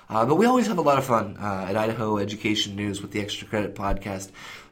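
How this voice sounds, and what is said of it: Slightly hoarse, fading voice. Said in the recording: “I'm losing my voice just a little bit.”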